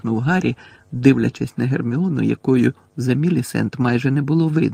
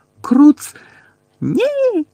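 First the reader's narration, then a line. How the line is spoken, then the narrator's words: Shrill cracked scream. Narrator (Ukrainian): заверещала надтріснутим голосом Герміона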